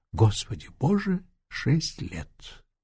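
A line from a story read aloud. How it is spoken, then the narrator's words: Excited whisper, young man. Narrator (Russian): молодой человек с не вполне понятным волнением прошептал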